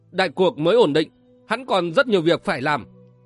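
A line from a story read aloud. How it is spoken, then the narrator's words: Stern. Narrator (Vietnamese): Vân Giật Long nghiêm nghị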